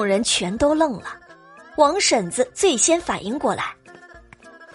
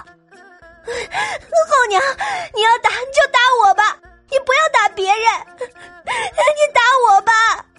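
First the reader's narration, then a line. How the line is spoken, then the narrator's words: Crying. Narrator (Chinese): 董小希 哭道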